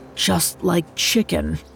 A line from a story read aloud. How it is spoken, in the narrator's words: mumbled to himself as he gulped the raw meat down